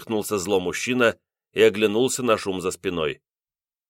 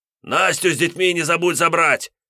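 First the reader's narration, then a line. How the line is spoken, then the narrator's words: Shout after someone. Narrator (Russian): крикнул вдогонку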